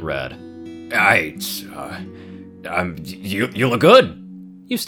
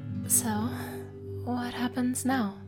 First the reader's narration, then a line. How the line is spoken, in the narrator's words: Amber whispered